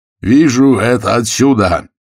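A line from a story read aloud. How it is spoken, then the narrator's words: Shouting into phone. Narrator (Russian): кричал в трубку Ефимов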